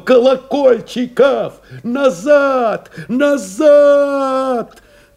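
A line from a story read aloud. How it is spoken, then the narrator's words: Drowned by shrieking shrapnel. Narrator (Russian): команду его заглушило, подавило пронзительно брызгающим визгом осколков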